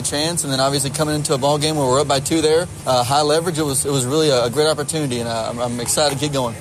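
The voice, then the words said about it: Southern Georgia accent. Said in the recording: “From your wonderful accent, you're from the South, you're from Georgia ... as you can hear from my accent, I'm very much proud of my Georgia roots”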